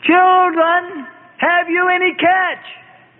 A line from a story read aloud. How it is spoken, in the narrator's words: the stranger called out to them